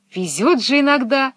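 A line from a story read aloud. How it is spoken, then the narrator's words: Exclaimed. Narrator (Russian): воскликнула Пеппи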